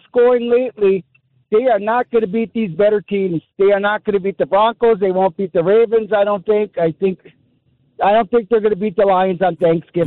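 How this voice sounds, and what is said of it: Strong Wisconsin accent. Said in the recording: “Are you doing a fake voice, or is that you're just doing a Wisconsin accent? ... if that is how you really talk, man, you are a true Wisconsinite”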